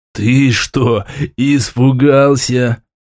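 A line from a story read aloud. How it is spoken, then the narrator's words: Speaking through uncontrollable laughter. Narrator (Russian): В порыве безудержного хохота сумел кое-как выговорить я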